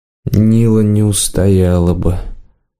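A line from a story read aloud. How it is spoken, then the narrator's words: Sad inner thought. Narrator (Russian): грустно подумал Варан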